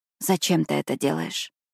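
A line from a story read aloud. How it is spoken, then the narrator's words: Pained hissing whisper. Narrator (Russian): Спрашиваю я шепотом, шипя, когда спирт попадает на швы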